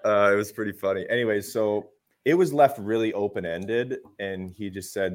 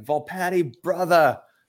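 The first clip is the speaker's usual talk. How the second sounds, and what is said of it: Put-on Rhode Island accent. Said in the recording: “a Rhode Island accent”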